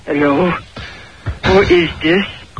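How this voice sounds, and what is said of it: Put-on foreign lady character voice. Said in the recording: “Who's doing this great voice? Doesn't sound like your wife. ... That was the new foreign lady that lives in this house.”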